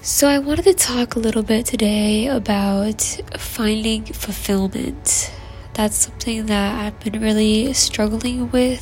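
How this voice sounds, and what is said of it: Soft, slow, soothing ASMR-like voice. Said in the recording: “ASMR voice ... I hope my voice can soothe you. I'm not a fast talker, so you'll probably hear me talk pretty softly”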